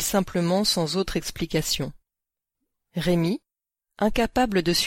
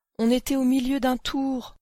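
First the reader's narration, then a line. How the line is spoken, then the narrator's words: Pleading. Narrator (French): implore-t-il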